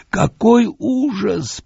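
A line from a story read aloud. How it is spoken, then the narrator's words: Moaning, sobbing. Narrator (Russian): простонал он, трясясь от рыданий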